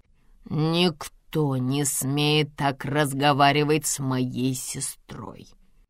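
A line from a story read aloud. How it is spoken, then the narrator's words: Quieter, insinuating, clipped words. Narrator (Russian): Уже тише, но вкрадчиво чеканит брат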